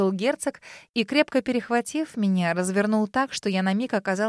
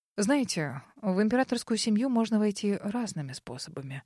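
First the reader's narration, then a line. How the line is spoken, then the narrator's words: Whisper in ear. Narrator (Russian): шепнул он мне на ухо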